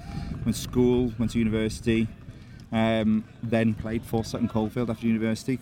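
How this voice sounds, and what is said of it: South Welsh accent. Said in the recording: “I'm from South Wales. I don't know if you can tell by the accent”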